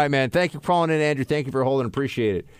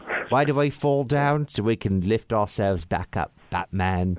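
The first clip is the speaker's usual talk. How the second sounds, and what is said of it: Imitates another person's weird accent. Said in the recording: “It's got that really weird accent.”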